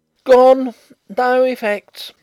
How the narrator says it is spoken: shouted across the hall

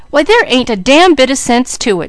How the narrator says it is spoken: she cried

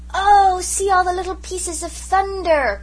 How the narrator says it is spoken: cried Jims in delight

